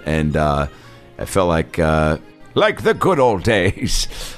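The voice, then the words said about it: Old man character voice. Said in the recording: “That's my old man voice.”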